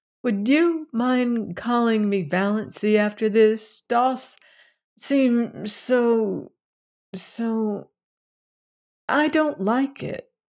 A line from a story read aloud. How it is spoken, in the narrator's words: she said timidly